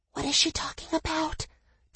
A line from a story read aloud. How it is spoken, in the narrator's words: Danny whispered